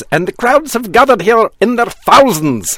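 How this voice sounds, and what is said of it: Weak put-on Scottish accent. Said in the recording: “I think that's a Scottish accent ... We are not close on the accent.”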